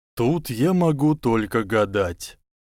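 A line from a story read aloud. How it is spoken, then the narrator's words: Sighing. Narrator (Russian): вздохнул Дамблдор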